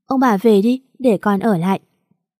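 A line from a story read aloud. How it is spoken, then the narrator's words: Gentle smiling girl. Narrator (Vietnamese): Con bé mỉm cười hiền lành, nói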